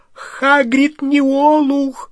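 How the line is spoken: Shrill repeated cry. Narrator (Russian): снова и уже визгливо вскрикнула Гермиона

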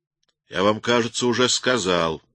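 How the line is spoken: Rude interruption. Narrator (Russian): грубо оборвал хозяин

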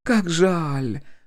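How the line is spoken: Sighing. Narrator (Russian): вздохнула Полина

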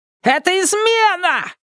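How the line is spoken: Shouted. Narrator (Russian): крикнул другой

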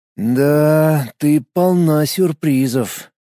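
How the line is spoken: Drawled. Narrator (Russian): протянул Никитин

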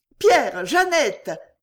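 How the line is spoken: Shouted. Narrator (French): cria la belle Claudine

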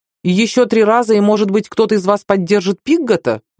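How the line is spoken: Shouted. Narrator (Russian): выкрикнул Хейверс

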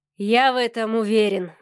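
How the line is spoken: Sighing. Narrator (Russian): вздохнул Савелий

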